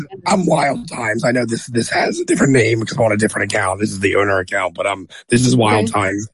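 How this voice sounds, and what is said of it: Strained, fading hoarse voice. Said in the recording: “I'm losing my voice here”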